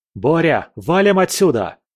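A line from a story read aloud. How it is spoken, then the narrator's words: Shouted. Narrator (Russian): крикнул я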